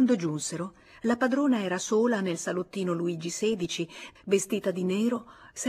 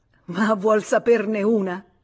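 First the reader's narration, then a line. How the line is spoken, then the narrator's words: Laughing. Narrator (Italian): disse ridendo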